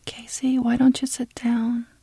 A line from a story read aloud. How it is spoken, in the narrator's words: Tina whispered